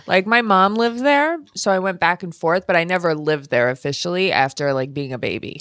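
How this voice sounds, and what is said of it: New York accent. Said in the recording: “We're native New Yorkers ... And you have the accent too”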